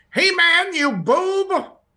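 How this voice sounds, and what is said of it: Imitates Skeletor cartoon villain voice. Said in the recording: “my Skeletor impression”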